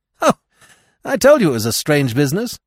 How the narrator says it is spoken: he cried

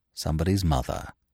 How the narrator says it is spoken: he murmured reverently

